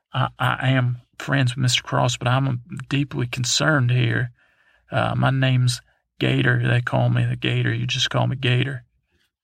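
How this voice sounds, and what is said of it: Put-on southern accent. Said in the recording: “you have a lovely southern accent”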